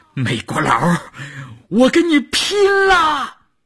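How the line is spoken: Desperate shout. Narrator (Chinese): 少月的喊声

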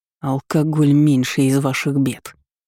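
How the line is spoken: Growl. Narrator (Russian): прорычал Бенедикт

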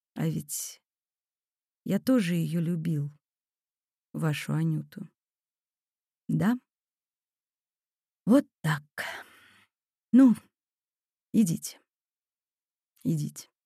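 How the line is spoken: Quiet old man. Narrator (Russian): старик тихо сказал

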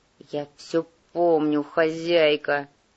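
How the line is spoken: Growled. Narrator (Russian): прорычал негр

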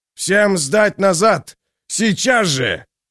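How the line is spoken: Yelling. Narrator (Russian): Человек в покрытом пятнами рабочем жилете завопил

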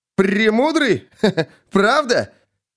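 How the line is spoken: Insolent beggar chuckling. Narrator (Russian): Нищий дерзко хохотнул

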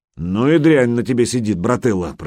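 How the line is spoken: Grumbling. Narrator (Russian): проворчал Гучко

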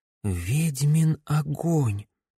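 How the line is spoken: Quiet whisper. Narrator (Russian): тихо прошептала Камилла

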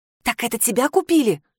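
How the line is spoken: Whispered question. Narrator (Russian): шепотом спросила

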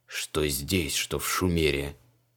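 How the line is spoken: Muffled but audible grumbling. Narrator (Russian): Бурчал он приглушенно, но все же так, чтобы его слышали в соседней комнате

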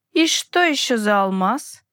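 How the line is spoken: Unexpectedly high-pitched drawl. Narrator (Russian): неожиданно тонким голосом протянул он

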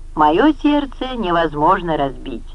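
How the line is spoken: Laughing. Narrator (Russian): рассмеялась Коринна

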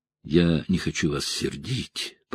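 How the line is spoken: Mumbling young woman. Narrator (Russian): пробормотала девушка

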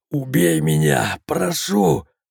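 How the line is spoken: Sudden moan. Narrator (Russian): Вдруг простонал Сергей

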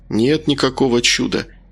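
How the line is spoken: Gentle objection. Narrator (Russian): мягко возразил Макар

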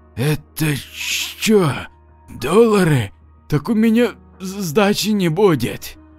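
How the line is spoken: Gulping whisper. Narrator (Russian): мужик громко сглотнул и прошептал

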